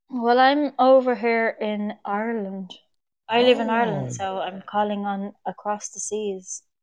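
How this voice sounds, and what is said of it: Irish accent. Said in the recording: “I like your accent.”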